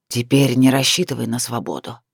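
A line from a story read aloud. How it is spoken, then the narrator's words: Hoarse. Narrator (Russian): Сияр хрипло изрек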